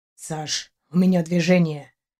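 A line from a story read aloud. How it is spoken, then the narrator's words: Whisper. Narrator (Russian): шепотом сообщил он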